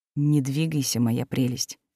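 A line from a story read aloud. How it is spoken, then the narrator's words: Forced-smile hiss through teeth. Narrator (Russian): с приклеенной улыбкой процедил маг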